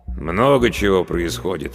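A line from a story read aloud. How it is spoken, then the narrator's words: Elder sighing. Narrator (Russian): вздохнул староста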